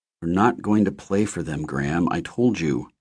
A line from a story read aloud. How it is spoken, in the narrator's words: he muttered